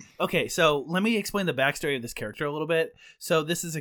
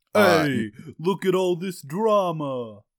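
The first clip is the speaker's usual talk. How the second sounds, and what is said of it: Thick put-on East Coast accent. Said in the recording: “a guy with a thick accent ... you're obsessing with East Coast accents”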